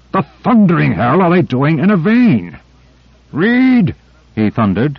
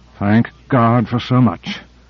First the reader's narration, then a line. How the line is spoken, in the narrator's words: muttered Carter